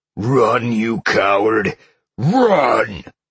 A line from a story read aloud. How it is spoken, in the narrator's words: Sal heard growled behind him